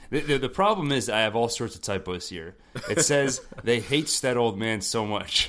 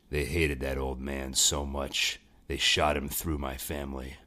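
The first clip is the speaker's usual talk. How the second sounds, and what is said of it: Gruff comic-book vigilante character voice. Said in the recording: “Punisher voice ... I'm worried that it's going to sound a lot like my Batman voice ... in your Punisher voice.”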